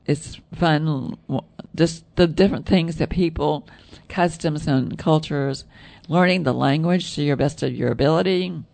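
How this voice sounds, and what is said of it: Southern American accent. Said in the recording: “With my southern accent”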